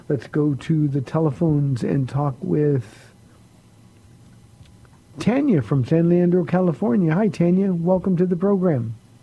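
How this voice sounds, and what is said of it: Tired-sounding voice. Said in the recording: “My voice is a little tired.”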